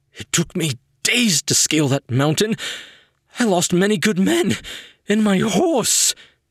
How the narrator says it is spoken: muttering

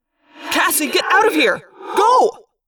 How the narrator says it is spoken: I yelled

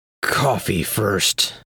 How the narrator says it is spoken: croaked

